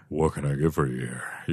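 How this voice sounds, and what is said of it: Deep, low bartender voice. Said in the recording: “He's got low voices like”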